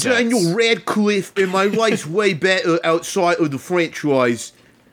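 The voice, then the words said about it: Overdone cockney accent, imitating someone. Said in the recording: “Why is he so cockney? ... the accents are not on point today.”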